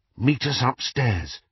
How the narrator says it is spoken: Harry whispered

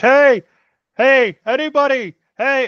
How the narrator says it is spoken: shouting at the top of my lungs

